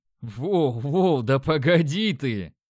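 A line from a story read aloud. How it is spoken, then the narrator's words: Laughing. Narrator (Russian): хохотнул я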